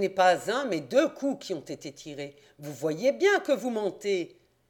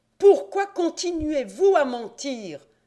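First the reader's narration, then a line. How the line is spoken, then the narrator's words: Exclaimed. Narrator (French): s'écria M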